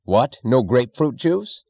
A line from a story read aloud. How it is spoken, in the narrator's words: he snapped